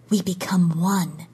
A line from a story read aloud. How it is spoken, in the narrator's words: she whispered